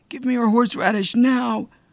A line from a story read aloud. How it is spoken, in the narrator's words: Roger is always impatient, but he was screaming, caring only about killing the fingers